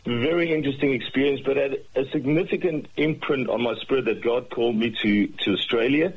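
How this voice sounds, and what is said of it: South African accent. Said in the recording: “I see myself more Australian than I see myself South African. My accent probably doesn't help”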